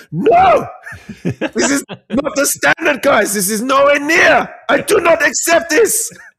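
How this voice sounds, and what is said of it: Shouting imitation of another person's voice. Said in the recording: “when I get cross and start yelling, I sound exactly like the Arsenal manager, Mikel Arteta, when he's shouting. I just lean into that.”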